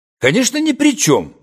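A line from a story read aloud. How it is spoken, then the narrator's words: Cheerful reply. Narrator (Russian): бодро ответил я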